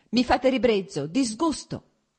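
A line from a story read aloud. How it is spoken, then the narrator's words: Heated, angry shout. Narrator (Italian): gridò lei riscaldandosi ancora di più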